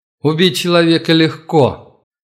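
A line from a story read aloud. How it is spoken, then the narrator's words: Suddenly loud man. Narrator (Russian): неожиданно громко произнес мужчина в черной униформе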